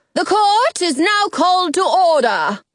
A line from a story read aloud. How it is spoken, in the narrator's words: she bellows